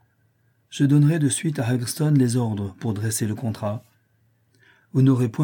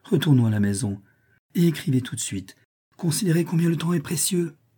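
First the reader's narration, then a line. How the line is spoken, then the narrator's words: Exclaiming. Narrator (French): s'écria-t-elle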